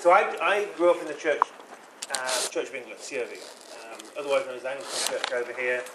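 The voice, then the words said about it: British accent. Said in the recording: “I grew up in the UK. That's why I have an accent.”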